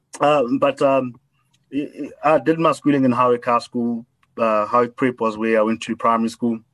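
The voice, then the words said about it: South African Model C school accent. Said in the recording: “former Model C schools, which is why I have this accent that I can't seem to shake off”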